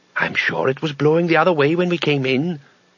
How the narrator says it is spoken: whispered Bethan

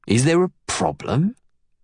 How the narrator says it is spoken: He asks through clenched teeth

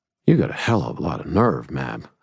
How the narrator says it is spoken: I murmured

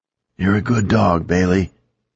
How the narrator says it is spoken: told me, his voice hoarse

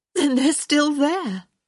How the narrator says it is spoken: she said excitedly

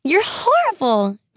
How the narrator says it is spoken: screamed, horribly

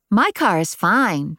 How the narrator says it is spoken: Jesse said cheerfully

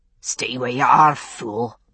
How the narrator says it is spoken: Dixon's voice growled from the rungs above

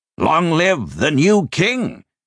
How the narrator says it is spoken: he shouted

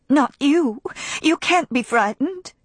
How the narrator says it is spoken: cried

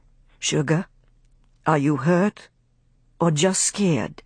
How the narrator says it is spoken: He questioned gently

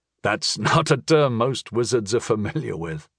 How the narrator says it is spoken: I chuckled

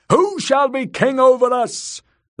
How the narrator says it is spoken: the priest cried once more

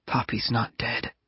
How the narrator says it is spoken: I whispered

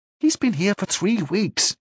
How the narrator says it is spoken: he said, lowering his voice

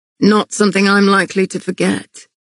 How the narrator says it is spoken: he replied dryly

